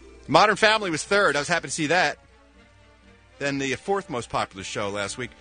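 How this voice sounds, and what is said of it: Usual voice. Nothing is said of it.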